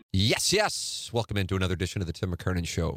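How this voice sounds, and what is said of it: Exaggerated radio announcer voice. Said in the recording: “For whatever reason, I'm doing a radio voice”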